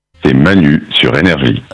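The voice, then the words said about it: Deep movie-trailer voiceover voice. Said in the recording (French): “Là, on a de la voix, là... Vous aimez bien la grosse voix?... Il fait voix off un peu. Je vois bien en générique de film.”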